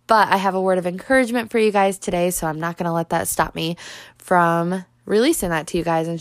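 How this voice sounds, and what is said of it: Congested, stuffed-up voice. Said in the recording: “I sound like I'm super stuffed up ... I sound stuffed up”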